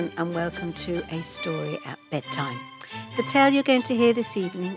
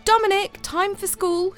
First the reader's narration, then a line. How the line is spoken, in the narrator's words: shouted his mum